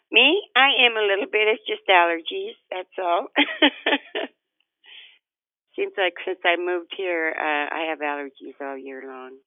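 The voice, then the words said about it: Nasal, congested voice. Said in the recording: “you sound a little nasal this morning”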